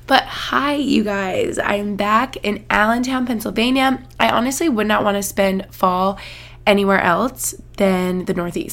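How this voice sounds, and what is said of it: Sniffly, under-the-weather voice. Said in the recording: “this is just an annoying cold ... I'm sure you can hear in my voice. Hopefully you don't hear me like sniffling too much.”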